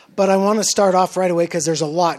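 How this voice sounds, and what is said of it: Strained hoarse voice. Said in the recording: “my voice is a little... I was screaming a bit”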